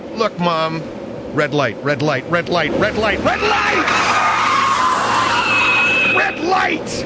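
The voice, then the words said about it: Raised, shouting voice. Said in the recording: “raising my voice”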